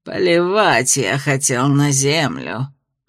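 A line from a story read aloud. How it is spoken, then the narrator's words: Through gritted teeth. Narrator (Russian): процедил Аларт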